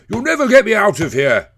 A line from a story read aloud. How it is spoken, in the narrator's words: shouts